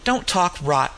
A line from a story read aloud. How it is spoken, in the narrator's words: McQuillan said sharply